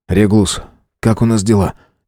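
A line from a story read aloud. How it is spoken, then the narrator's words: Quiet question. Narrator (Russian): тихо спросил Фауст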